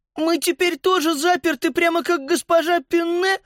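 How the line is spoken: Sobbing. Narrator (Russian): всхлипнула Сузи

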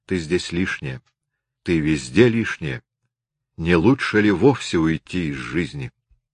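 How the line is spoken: Whispering. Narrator (Russian): гордость нашептывала ей

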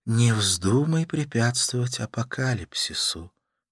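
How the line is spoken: Whisper. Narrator (Russian): прошептала она

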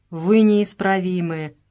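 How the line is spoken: Grumbling. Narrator (Russian): ворчал Дидоне

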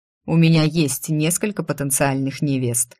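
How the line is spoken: Scoffing. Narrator (Russian): хмыкнул он

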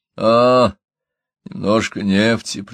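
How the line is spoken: Drawn-out drawl. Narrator (Russian): протянул я

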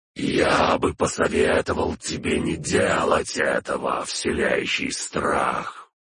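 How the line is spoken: Creaky lich voice. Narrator (Russian): проскрипел голос Лича

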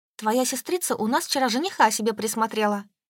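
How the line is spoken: Plain. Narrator (Russian): сказала я

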